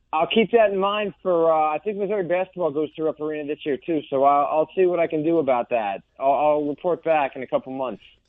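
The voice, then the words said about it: East Coast accent with edge. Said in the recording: “I just like that East Coast accent. It just sounds like it's got a little more edge, and it's entertaining”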